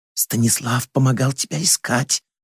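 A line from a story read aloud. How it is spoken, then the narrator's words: Whisper. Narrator (Russian): шепнула дочери Лобычева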